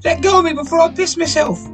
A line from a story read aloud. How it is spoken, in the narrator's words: A squeak in his voice